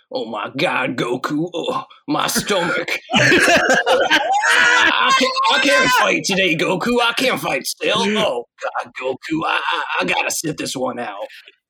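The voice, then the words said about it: Cartoon character impression voice. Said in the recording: “this is my Hercule impression.”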